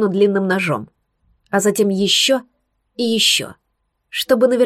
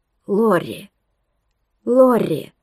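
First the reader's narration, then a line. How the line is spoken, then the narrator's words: Young man whispering. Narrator (Russian): шептал молодой вождь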